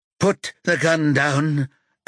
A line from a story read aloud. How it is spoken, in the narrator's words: Adam says in a shaky voice